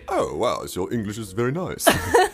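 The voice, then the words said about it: Pierce Brosnan impression, neutral accent. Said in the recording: “in his very neutral accent”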